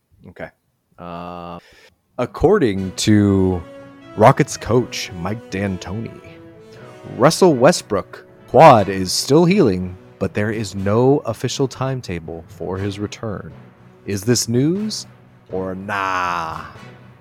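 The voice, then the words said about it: Cool announcer voice. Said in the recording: “my cool announcer voice”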